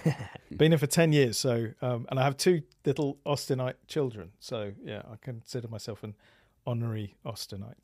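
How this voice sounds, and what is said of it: English accent. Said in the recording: “the accent doesn't give that away”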